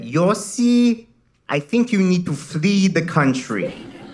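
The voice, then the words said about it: Imitated foreign-accented mother. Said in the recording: “my mom called me up and in her foreign accent said”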